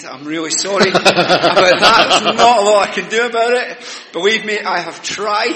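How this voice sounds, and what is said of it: Strong non-English accent. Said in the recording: “You're not getting a rest from this accent. ... I've lived in England for over 40 years. You would think I'd just got off the bus”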